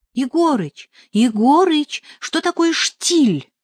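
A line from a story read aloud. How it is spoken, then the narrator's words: Exclaiming. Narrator (Russian): воскликнул я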